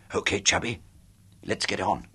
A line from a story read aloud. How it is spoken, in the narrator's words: I whispered